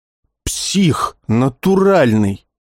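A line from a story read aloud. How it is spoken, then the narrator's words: Muttering. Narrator (Russian): Усатый бормоча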